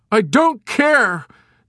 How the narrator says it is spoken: Nately shouted desperately

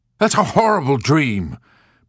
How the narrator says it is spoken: Major Sanderson cried

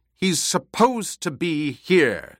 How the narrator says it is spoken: Jessica snapped

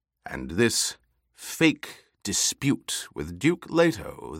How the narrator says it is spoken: the Emperor purred

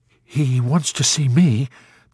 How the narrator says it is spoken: the chaplain pleaded

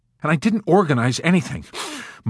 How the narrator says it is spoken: Milo answered indignantly, drawing great agitated sniffs of air in through his hissing, pale, twitching nose

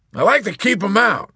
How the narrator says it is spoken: confided

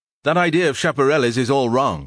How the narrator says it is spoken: shouted

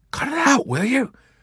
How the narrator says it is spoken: Nately warned in a fierce whisper

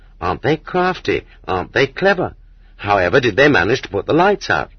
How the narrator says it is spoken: People exclaimed in admiration

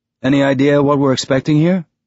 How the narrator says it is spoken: In a conversational tone, Amos said

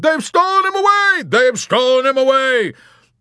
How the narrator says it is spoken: screamed someone else

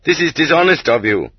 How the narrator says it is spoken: they barked back at him

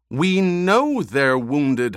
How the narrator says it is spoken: Howitt snapped

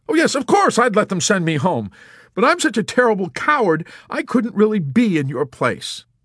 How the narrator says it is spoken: disgustedly in a gesture of violent distress and blurted out

